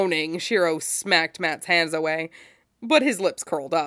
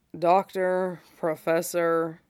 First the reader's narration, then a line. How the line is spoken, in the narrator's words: Shiro drawled sleepily, the words slurring together